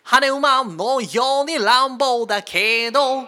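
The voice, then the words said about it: Imitates a rock singer's voice. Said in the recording (Japanese): “ポルノグラフィティさんのモノマネ ... 似てる特徴掴んでる”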